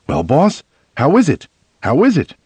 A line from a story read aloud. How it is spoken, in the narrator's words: The fellow says excitedly